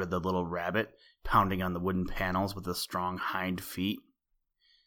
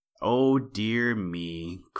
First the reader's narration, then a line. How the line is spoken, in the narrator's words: cried Little Jack Rabbit